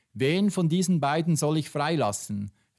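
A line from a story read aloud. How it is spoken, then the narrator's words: Crowd shouting. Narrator (German): rief die Menge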